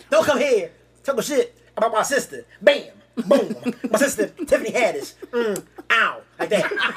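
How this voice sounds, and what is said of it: Imitates another person's voice. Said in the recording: “That's your best impression ever”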